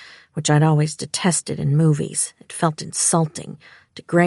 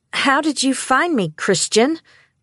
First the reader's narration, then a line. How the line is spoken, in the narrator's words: I said loudly